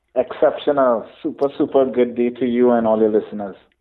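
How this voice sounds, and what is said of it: Caribbean accent. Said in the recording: “I absolutely love the accent. It makes me feel like I'm watching Cool Runnings”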